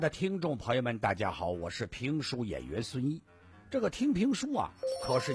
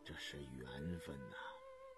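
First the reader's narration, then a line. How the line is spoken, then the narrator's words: Murmured. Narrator (Chinese): 乌斯道惊异地，喃喃地说道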